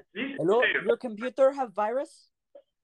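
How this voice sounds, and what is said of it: Put-on Indian accent. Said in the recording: “Can you do an Indian accent?”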